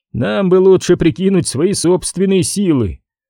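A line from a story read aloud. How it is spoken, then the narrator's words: Laughing again. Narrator (Russian): снова засмеялся Элбрек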